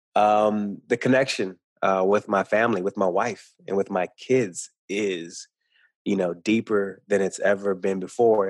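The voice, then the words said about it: Speaks with a twang. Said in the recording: “you'll hear more, probably more of a twang than you ever heard before, because I'm no longer trying to hide how I speak. I have a bit of a twang”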